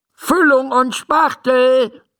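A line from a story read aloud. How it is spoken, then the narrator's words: Called out. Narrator (German): ruft Dr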